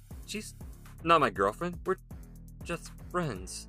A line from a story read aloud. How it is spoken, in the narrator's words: Ryan stammered